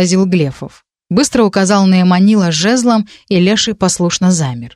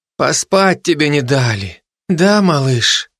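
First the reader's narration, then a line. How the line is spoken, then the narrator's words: Quiet. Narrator (Russian): тихо проговорил Глефов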